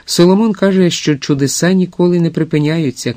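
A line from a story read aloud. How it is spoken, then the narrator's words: Joyful shouting into ear. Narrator (Ukrainian): кричала радісно місіс Раут у вуха старій леді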